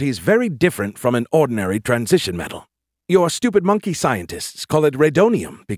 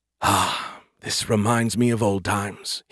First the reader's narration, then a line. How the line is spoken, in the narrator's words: he sighed